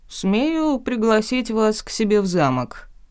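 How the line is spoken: Mocking offer. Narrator (Russian): по-прежнему насмешливо предложил Лорн, явно не впечатленный моей отповедью

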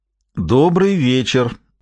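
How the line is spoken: Loud, echoing through church. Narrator (Russian): громко произнес Гамаш, слыша собственный голос, который прогремел по церкви и смолк

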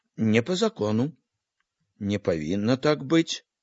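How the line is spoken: Quiet agreeing speech. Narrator (Belarusian): апейка ціха згодна казаў

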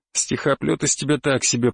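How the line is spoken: Grumbling. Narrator (Russian): проворчал

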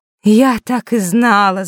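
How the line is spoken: Groaning fairy. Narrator (Russian): застонала светлая фея

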